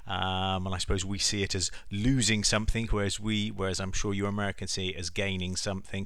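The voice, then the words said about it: English accent. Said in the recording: “I guess you can tell by the accent that the 4th of July always has a different connotation for us in England”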